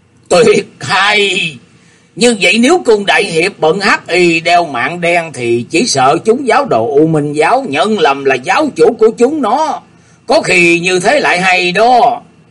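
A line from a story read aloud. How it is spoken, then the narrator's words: Loud laughing voice. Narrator (Vietnamese): Tư Đồ Kỳ cười to nói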